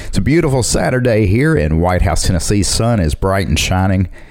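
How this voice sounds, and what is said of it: Southern American accent. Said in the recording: “sound really southern”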